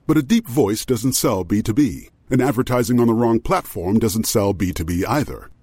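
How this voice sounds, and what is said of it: Very deep voice. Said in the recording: “a person with a very deep voice”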